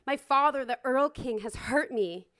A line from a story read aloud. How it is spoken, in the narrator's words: he cries out